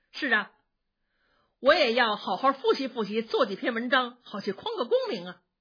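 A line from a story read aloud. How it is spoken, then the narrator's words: Smiling. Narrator (Chinese): 宝玉笑着说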